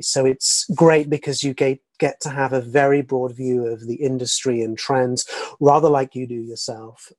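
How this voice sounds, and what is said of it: English accent. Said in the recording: “I hear that accent. I think I saw you're from Surrey, England”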